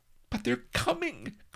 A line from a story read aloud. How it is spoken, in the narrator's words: cried Vanity